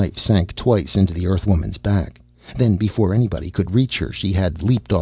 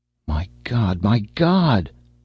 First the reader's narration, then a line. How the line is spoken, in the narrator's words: moaned Rastignac, stunned with grief and shock and sorrow